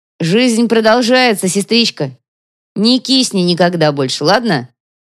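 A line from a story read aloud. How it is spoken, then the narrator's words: Shout. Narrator (Russian): прокричал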